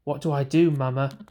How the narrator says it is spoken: I cried out

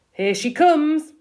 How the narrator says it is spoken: my father called out

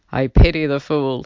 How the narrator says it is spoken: he said in a funny, tough voice, like he was imitating someone

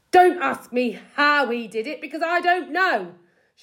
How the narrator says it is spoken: shouted Mr

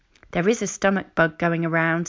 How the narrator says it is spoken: said Nurse Molly

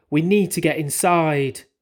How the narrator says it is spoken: I cried

